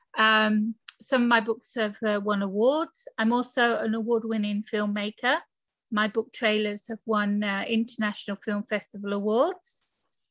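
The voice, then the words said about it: British English accent. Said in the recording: “I'm from the UK, as you can tell from my accent”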